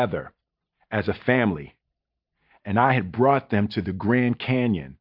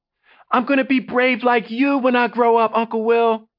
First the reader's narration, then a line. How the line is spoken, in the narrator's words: she screamed